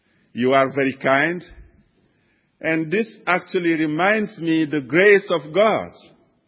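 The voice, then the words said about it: French African accented English. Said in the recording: “very broken English, spoken in a French African accent”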